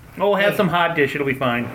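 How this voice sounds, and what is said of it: Mock Minnesota accent. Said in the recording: “even in Minnesota, we make fun of Minnesota accent.”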